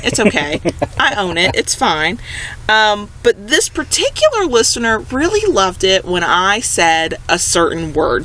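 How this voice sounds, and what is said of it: Speaker's own regional accent. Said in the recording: “some of y'all out there really love my accent ... I know there's an accent.”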